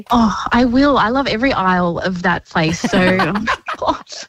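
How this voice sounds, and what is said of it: Teary, emotional voice. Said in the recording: “I'm a bit teary now. I didn't think I'd be like that.”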